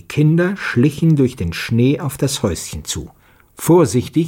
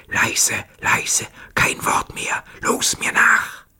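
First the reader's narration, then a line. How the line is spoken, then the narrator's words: Whispering to comrades. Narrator (German): Petja flüsterte seinen Kameraden zu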